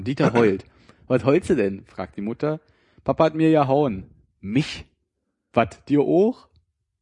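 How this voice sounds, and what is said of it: Put-on Berlin dialect. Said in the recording (German): “Ein Witz, der nur funktioniert, wenn man den Dialekt spricht ... Berliner Witze”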